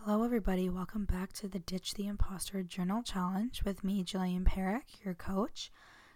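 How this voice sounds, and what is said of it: Hoarse, weakened voice. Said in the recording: “I have lost my voice this weekend ... the audio isn't that great because I lost my voice”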